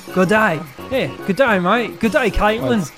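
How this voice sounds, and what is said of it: Put-on Australian accent. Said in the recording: “How do you like my flawless Australian accent?”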